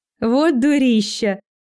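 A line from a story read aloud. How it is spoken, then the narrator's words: Loud laughter. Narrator (Russian): расхохоталась я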